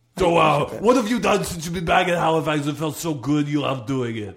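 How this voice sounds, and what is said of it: Austrian-sounding put-on accent. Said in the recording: “you sounded a little bit like almost sort of Austrian ... my maritime accent ... you sort of sound a little bit like Arnold Schwarzenegger”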